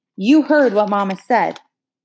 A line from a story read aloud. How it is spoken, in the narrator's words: Ellie yelled at his back